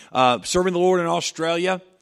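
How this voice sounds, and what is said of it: Failed attempt at Australian accent. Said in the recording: “I tried to go with the accent there, but I missed.”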